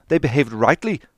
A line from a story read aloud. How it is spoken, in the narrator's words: cried Dante